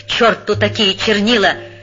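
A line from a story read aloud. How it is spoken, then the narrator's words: Growled. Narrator (Russian): прорычал пан Клякса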